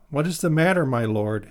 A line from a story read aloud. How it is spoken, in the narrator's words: Hazael asked him